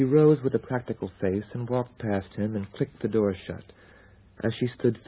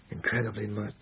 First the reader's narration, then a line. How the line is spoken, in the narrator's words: he murmured into the fine down of her neck